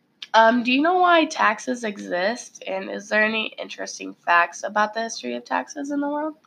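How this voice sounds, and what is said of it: Slightly sick-sounding voice. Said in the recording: “Excuse me if you hear me cough or if my voice sounds a little different... I'm a little sick”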